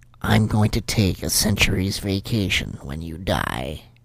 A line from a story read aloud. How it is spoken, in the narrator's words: Satan said in a quiet, threatening tone